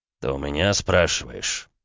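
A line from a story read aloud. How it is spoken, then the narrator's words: Angry, through gritted teeth. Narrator (Russian): зло процедил граф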